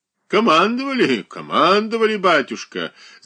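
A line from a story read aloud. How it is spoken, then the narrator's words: Old man's deep bass laugh. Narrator (Russian): засмеялся густым басом седой господин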